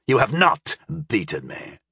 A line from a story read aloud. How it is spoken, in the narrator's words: snarled the Nemovort